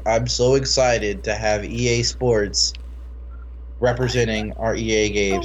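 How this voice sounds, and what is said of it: Deadpan flat delivery. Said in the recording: “in this total deadpan thing”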